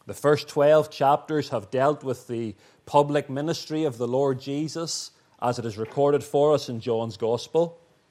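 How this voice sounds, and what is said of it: Northern Irish accent. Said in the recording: “my dodgy Northern Irish accent”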